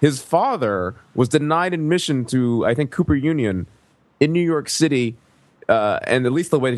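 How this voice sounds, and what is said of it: Usual voice. Nothing is said of it.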